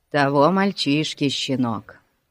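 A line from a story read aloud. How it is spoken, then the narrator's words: Sighing. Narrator (Russian): вздохнул Пип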